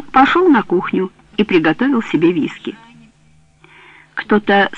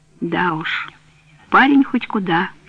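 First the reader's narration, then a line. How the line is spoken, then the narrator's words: Sighing. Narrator (Russian): вздохнул он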